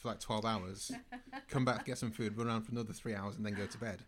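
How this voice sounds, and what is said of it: Manchester accent, not London. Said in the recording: “that's not a London accent, is it? ... Now I'm from Manchester.”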